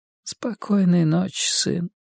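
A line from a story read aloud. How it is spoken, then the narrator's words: Whisper. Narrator (Russian): шепнул он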